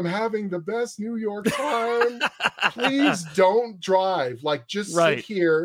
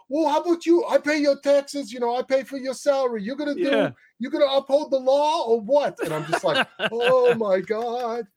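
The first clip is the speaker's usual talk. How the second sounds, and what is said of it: Put-on New York accent. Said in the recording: “everyone's being so New York and they're screaming at each other and the accent”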